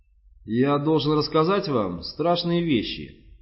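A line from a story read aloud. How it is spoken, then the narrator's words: Plain. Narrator (Russian): наконец сказал он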